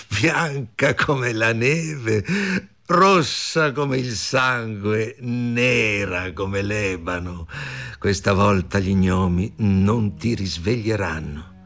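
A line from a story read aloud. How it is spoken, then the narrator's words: Cruel loud laughing. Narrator (Italian): La regina ridendo rumorosamente, e disse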